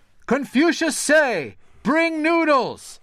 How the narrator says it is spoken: shouted the servant to the cook

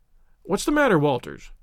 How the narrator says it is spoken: asked Baines sharply

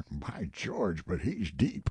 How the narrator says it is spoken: Buzz of admiration, muttered remark

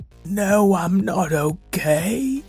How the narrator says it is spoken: Zora moaned

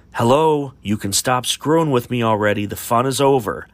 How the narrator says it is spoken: he was quite agitated and angrily called out

